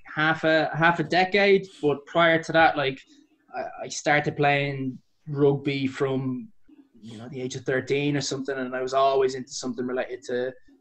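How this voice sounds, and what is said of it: Irish accent. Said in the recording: “that's not a traditional London accent... whereabouts in Ireland is it?”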